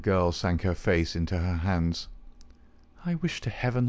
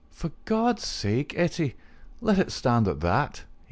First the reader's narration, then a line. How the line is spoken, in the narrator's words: he cried